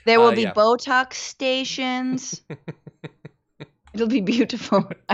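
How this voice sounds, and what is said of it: Attempted Melania Trump accent impression. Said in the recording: “I don't know what accent I'm doing. I forgot how to do Melania.”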